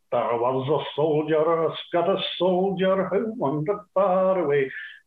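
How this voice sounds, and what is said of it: Put-on Scottish accent, singing. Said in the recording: “I could do the Scottish accent”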